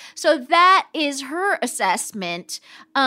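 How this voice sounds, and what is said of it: Usual voice. Nothing is said of it.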